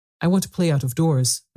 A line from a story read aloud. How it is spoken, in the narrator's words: Mary answered, hoping that her voice did not tremble